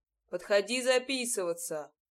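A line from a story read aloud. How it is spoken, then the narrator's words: Deep bass voice. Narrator (Russian): пробасил он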